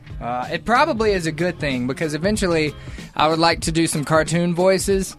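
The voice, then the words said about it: Southern American accent. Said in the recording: “your accent is fading every day that you're here ... completely being covered in a southern accent”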